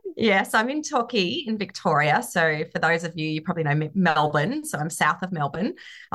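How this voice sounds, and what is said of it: Australian accent. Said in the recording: “I'm from Australia. You can probably tell from the accent.”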